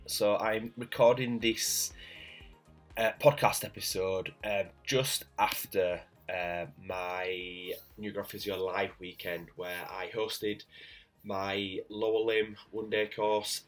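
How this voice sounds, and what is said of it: Croaky, strained voice. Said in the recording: “You can probably tell by my voice, it's a little bit croaky, so that's just off the back of a couple of days presenting”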